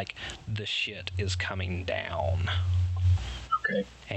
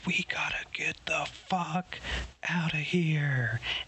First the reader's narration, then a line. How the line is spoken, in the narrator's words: Palisade's, like, screaming at you, and she's like